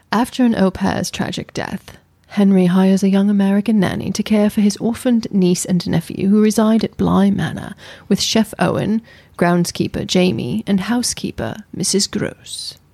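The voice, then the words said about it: Put-on British accent. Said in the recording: “you're supposed to do it in an accent ... Your British accent ... Stick with the British one.”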